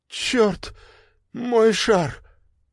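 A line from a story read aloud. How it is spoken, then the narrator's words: Hoarse. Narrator (Russian): произнесла хрипло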